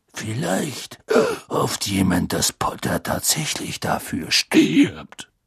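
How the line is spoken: Faint growl. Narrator (German): sagte Moody mit kaum noch merklichem Knurren

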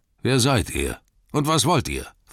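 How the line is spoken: Gruff demand. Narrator (German): fragte er barsch

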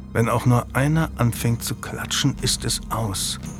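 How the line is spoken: Murmuring. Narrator (German): murmelte Burton

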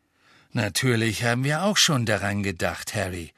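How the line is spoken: Plain. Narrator (German): sagte Mr

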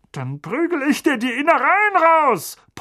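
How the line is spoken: Blustering angry bellow. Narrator (German): polterte Onkel Vernon

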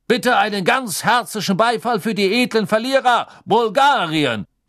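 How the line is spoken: Announcing call. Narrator (German): rief Backman

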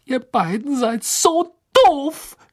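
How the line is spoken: Shouting. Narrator (German): schrie sie

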